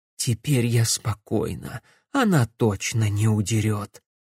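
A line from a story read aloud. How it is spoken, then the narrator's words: Relieved whisper. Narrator (Russian): шепнула Илиана Бенедикту, вздохнув с облегчением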